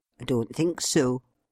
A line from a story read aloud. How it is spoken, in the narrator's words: replied the cabby